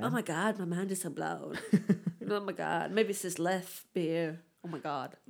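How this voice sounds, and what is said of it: Put-on American accent, poorly done. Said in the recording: “I'm going to stop doing that accent because that's awful. ... It's not good, ... that American accent.”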